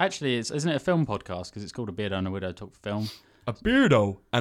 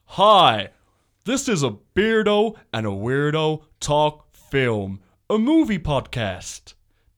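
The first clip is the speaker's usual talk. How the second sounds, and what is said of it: Exaggerated movie announcer voice. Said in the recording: “do my movie voice?”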